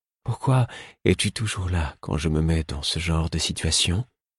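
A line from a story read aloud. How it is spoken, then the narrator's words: Hoarse question. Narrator (French): demanda-t-il d'un ton rauque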